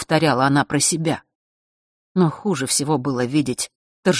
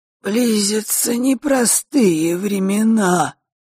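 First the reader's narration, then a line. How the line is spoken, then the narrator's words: Creaky voice. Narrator (Russian): проскрипел Острогор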